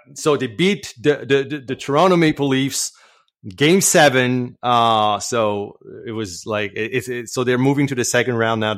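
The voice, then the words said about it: French Canadian accent. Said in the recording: “my accent is probably betraying me, but yeah, I'm French Canadian.”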